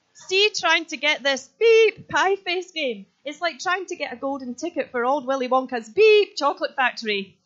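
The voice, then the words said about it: Exaggerated Scottish accent. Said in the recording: “I'm trying to do my best Scottish accent, although I am Scottish”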